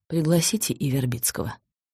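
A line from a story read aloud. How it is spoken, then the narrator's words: Plain. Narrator (Russian): сказал Долгоруков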